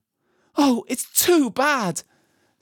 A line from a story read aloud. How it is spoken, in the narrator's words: sobbed Lucy